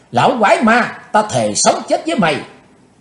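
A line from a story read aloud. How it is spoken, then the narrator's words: Young woman shouting loudly. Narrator (Vietnamese): Thiếu nữ áo đen hét to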